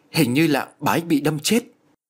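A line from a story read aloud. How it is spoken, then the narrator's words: Frightened. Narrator (Vietnamese): Ông Thiện sợ hãi nói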